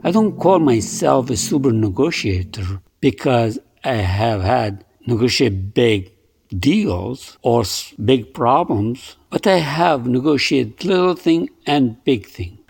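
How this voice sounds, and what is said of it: Thick foreign accent. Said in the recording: “Even with my thick accent, yes, even with my thick accent, I'm sure you have noticed that by now”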